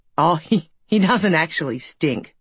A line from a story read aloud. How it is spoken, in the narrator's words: Patrick had said, old chuckles at the thought of Stinky actually stinking